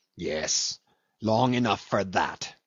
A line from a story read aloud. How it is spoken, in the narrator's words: snarled Cornelius